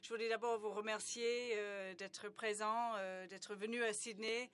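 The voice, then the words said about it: Strong Australian accent in French. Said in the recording (French): “j'ai un accent très fort australien”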